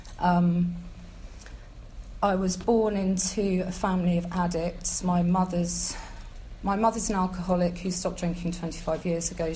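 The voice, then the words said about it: Shaking, nervous voice. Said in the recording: “my voice is shaking”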